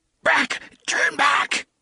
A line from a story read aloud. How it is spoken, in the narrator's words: He tried to scream the words, but they came out in what was little more than a croak